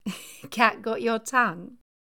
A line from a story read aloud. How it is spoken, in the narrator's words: His pupil laughed